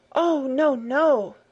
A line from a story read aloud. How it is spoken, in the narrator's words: Clara exclaimed